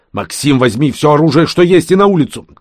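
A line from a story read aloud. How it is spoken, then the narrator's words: Shouted. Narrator (Russian): крикнул шейх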